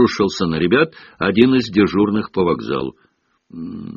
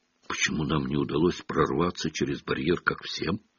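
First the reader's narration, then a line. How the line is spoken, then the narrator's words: Whispered question. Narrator (Russian): шепотом спросил Гарри у Рона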